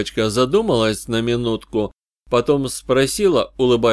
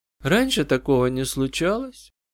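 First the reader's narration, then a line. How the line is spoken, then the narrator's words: Girl's quiet lifeless voice. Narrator (Russian): Девочка говорила тихо, безжизненным голосом, словно вспоминая что-то давно прошедшее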